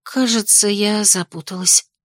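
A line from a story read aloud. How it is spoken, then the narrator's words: Quiet, breathy. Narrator (Russian): выдохнула тихо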